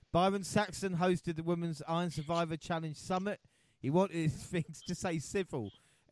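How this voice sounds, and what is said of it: Scottish accent. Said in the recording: “the mighty Glasgow Rangers, which are the best team, not only Scotland... You can tell by my accent.”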